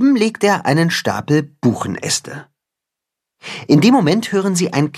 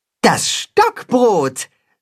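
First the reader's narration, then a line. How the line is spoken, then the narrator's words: Calling out. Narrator (German): ruft das Katzenhuhn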